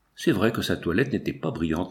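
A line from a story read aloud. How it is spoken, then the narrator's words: Murmur. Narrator (French): murmura Binos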